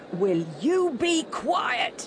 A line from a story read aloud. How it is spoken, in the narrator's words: a rough voice shout